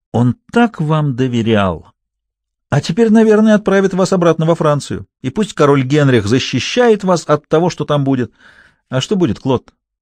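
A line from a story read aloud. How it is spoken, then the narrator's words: Almost cheerful question. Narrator (Russian): Почти весело переспросил я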